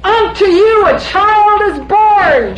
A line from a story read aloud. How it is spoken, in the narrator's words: she yelled at the shepherds